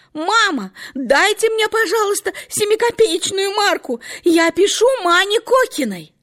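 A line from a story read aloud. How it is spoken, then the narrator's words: Sudden shout to next room. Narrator (Russian): Катенька вдруг крикнула в соседнюю комнатушку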